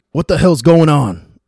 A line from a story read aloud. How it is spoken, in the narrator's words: Clint asked angrily